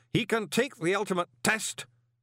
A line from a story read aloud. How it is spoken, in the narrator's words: said the worshipful master sternly